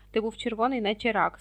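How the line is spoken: Plain. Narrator (Ukrainian): сказав Рон

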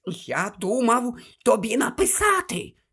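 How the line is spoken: Whispered. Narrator (Ukrainian): шепотів він

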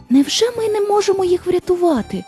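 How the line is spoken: Girl exclaiming. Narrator (Ukrainian): вигукнула дівчинка

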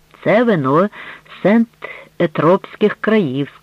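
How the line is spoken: Plain. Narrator (Ukrainian): сказав він

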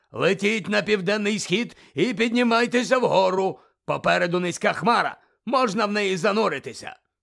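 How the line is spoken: Shout. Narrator (Ukrainian): крикнув Муді

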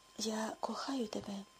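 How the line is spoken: Passionate overjoyed whisper. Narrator (Ukrainian): гаряче пропошепотів Рудольф, проголомшений незбагненним щастям, яке раптом охопило його

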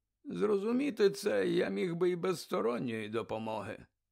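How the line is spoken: Sighing. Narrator (Ukrainian): зітхнув Дамблдор

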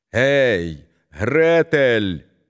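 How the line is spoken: Shouted. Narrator (Ukrainian): крикнула вона

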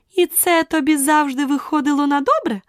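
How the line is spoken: Triumphant exclamation. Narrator (Ukrainian): переможно вигукнула королева

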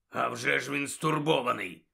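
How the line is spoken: Hoarse rasp. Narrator (Ukrainian): прохрипів Муді

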